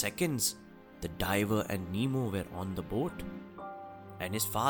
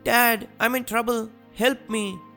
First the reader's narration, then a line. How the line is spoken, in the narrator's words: Nemo cried saying